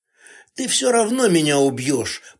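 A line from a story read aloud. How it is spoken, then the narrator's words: Hoarse, dry-mouthed rasp. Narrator (Russian): прохрипела я, давясь сухостью во рту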